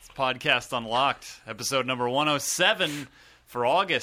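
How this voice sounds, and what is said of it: Usual voice. Nothing is said of it.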